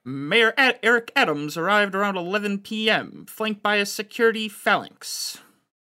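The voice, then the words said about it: Newscaster voice. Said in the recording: “I'll do the newscaster voice.”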